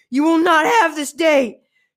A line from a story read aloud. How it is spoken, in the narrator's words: She yelled at the demons